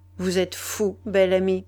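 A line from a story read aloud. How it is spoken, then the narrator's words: Stern tone. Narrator (French): elle dit d'un ton sévère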